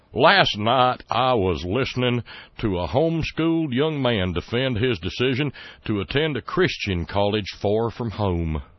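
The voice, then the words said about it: Reading aloud in a put-on accent. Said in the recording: “you gotta use the right accent for this one”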